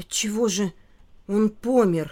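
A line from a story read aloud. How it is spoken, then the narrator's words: Hoarse question. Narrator (Russian): хрипло спросил Филька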